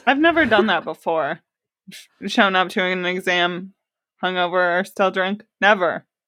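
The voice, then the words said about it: Sarcastic mock denial. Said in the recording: “that was sarcasm”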